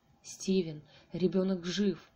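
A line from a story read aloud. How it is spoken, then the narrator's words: Hiss. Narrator (Russian): зашипела она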